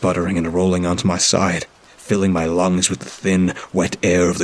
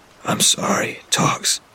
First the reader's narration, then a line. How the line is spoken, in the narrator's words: I said to him, my voice a wreck